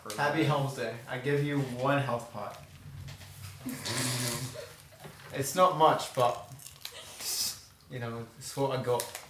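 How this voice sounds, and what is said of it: Odd put-on accent. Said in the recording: “that's an odd accent.”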